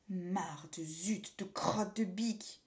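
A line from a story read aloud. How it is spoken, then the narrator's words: Grumbled. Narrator (French): grommela Pierre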